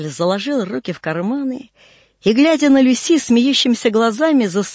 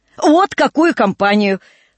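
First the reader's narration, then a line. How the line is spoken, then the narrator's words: Exclaiming with merry laughter. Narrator (Russian): с веселым хохотом воскликнул месье Жорж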